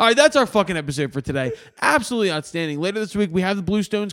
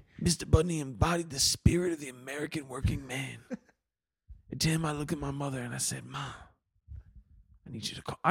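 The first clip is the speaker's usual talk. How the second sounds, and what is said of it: Imitates another person's voice. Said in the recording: “doing the Bruce voice.”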